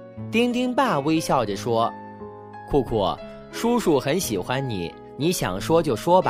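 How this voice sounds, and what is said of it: Usual voice. Nothing is said of it.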